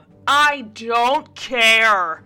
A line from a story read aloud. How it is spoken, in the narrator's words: Mary snapped loudly